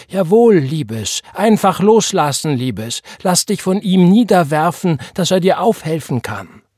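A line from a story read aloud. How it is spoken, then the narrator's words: Old woman calling. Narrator (German): die alte Frau, die neben ihr stand, und sie rief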